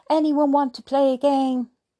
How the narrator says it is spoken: she shouts

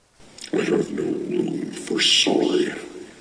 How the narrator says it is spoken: growled the wolf

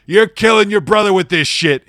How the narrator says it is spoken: he yelled at me

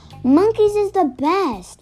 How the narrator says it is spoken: Lulu yells

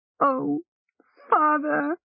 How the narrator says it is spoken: Hilsa cried, she wept

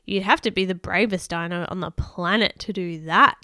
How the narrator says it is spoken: sneered Craw

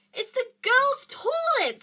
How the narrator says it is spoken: Harry gasped

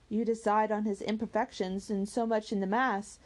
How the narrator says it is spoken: said Eleanor

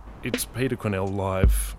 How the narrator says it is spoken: he muttered

